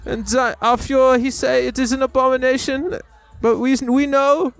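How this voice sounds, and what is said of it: Put-on German accent. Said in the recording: “Wanted to do a German accent for a minute ... a ... German accent can only be gay”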